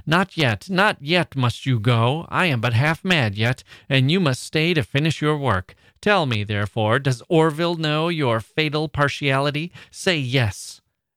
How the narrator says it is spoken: a fury so indecently outrageous, he cried

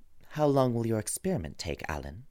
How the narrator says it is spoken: he said in a calm, indifferent voice

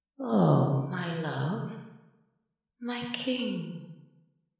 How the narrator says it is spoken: she purred in a suspiciously comforting tone

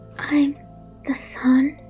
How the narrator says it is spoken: she whispered

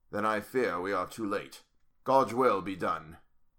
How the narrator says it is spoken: said solemnly

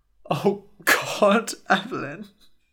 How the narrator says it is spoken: said, her voice breaking

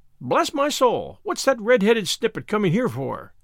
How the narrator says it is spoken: Ginger the parrot exclaimed

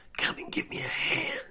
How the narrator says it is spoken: I hiss

